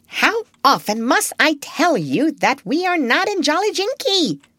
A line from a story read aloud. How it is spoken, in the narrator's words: snapped Polynesia